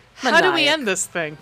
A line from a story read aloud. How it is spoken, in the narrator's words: Maniacal laugh